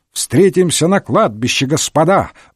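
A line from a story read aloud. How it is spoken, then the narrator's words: Ecstatic yelling. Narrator (Russian): в восторге орал Гудвин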